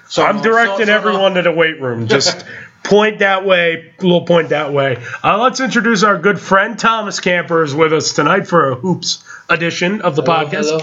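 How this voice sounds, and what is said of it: Sick, under-the-weather voice. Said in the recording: “you did also very great with being sick ... I hear it in your voice ... I am under the weather”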